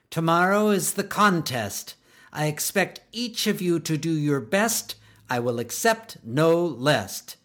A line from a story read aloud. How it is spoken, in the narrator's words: Miss Bugley stiffly snapped